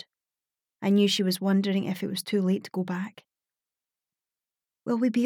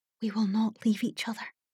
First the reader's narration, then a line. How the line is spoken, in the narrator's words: I whispered